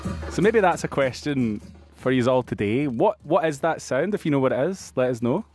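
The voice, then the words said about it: Thick non-Australian accent. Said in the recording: “Your accent's coming back really thick there. ... It'll slowly get a little bit more Australian”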